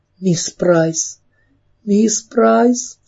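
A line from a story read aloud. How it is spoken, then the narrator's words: Sobbing. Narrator (Russian): всхлипывала Кэрри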